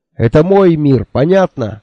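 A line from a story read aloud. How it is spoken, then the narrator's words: Ecstatic yelling. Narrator (Russian): орал я, чувствуя, как мой рот перекосило неописуемое наслаждение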